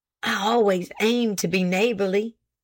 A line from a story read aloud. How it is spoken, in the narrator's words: said he, nervously lowering his voice, for he was conscious of his wife, still standing on the veranda